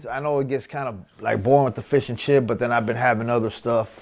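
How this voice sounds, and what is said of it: American California accent. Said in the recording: “that American California accent”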